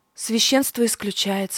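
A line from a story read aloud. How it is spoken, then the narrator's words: Sighed. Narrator (Russian): вздохнула я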